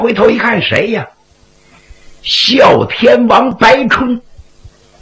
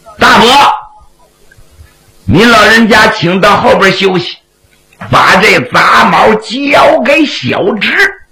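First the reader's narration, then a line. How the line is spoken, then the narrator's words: Shout from behind. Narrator (Chinese): 徐良的身后有人喊了一声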